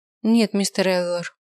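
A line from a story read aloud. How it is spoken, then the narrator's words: Dry. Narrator (Russian): сухо ответила Синтия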